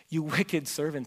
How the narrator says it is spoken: he said

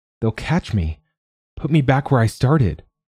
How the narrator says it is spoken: Oliver moans

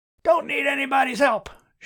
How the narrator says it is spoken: shouted Cameron

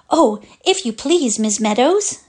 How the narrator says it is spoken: said the little girl, gasping

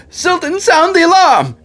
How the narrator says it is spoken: Benjamin yell

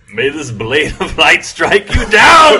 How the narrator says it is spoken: he yells

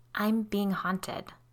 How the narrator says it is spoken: she whispered

